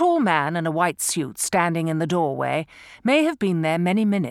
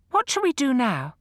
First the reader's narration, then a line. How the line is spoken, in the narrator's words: Piero, eager to repair a bad situation, said brightly